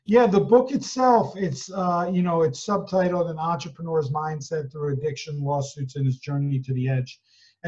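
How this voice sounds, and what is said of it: New Jersey accent. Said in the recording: “this New Jersey accent”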